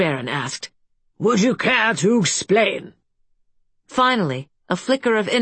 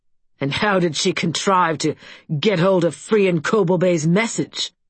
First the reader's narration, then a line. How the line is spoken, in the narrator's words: Castellan Crow asked in that snide tone of his